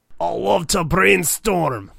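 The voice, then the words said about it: Put-on Scottish accent. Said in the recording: “That's the best Scottish accent I could ever imagine. Are you sure you weren't born and raised in Scotland?”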